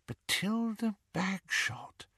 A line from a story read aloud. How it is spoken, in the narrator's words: murmured Hermione